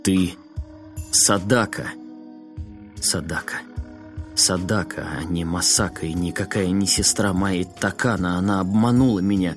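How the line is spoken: Hoarse, choked up. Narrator (Russian): сглотнув комок в горле, он хрипло сказал

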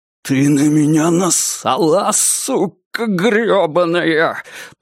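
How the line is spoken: Hissed. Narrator (Russian): прошипел он

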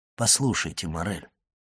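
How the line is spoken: Gentle. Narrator (Russian): мягко сказал граф

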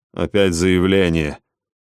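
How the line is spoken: Grumble. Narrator (Russian): проворчал Ося

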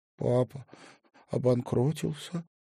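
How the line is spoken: Trembling voice. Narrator (Russian): дрожащим голосом ответила та

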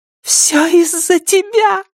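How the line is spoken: Shriek. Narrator (Russian): завизжала она

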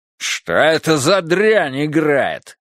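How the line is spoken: Angry bark. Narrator (Russian): рявкнул Фариш

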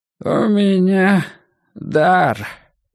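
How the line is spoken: Mumbling toothlessly at last. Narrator (Russian): прошамкал он наконец

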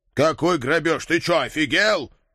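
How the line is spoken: Growl. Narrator (Russian): рыкнул я

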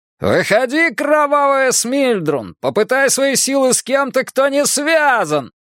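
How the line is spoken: Yelled from below. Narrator (Russian): заорал кто-то внизу

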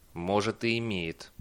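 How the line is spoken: Dry reply. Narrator (Russian): ответил Бейли сухо

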